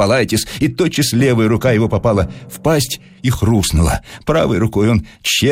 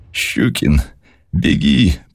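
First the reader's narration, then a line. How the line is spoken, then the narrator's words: Sobbing mumble. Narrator (Russian): промычал он, всхлипывая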